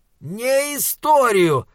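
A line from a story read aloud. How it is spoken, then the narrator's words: Roaring. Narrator (Russian): взревел Моргенс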